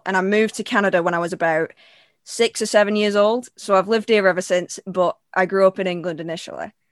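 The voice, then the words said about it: Manchester English accent. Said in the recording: “Give me a real voice. ... I'm from Manchester. ... Manchester or the Canada voice?”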